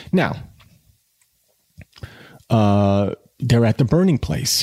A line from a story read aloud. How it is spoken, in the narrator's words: he stammered